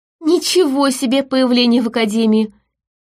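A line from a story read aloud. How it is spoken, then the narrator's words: Giggling. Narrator (Russian): хихикнула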